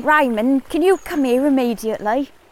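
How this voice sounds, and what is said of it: Attempted generic London accent. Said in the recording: “Can you do just sort of a generic sort of London accent? ... I sounded like blooming Mary Poppins ... Go on, I want to hear your London accent.”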